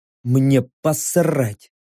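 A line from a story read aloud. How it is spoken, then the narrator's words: Grumbled into ear. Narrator (Russian): буркнул прямо в ухо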